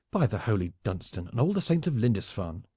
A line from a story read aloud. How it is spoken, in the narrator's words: cried the fiery borderer